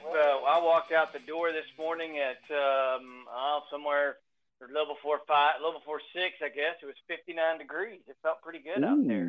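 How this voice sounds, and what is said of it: Polished radio announcer voice. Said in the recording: “that amazing radio voice”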